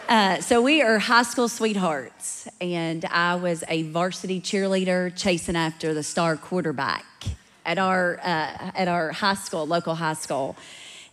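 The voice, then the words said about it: Rural central Kentucky accent. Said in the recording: “grew up in a small rural town in central Kentucky, and you can clearly tell that by my accent.”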